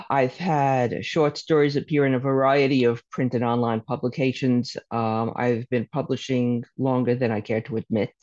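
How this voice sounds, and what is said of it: Brooklyn accent. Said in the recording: “I'm from Brooklyn, as you can probably tell from my accent.”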